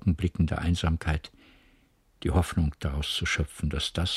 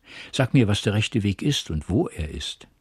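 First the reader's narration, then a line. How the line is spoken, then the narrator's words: Exclaimed. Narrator (German): rief sie aus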